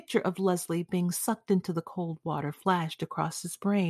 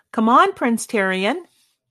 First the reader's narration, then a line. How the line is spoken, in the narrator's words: said quite loudly